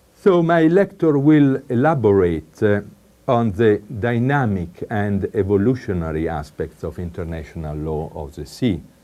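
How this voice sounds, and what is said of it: Strong Italian accent. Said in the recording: “I apologize for my strong Italian accent, but I have it, I like it, and I keep it.”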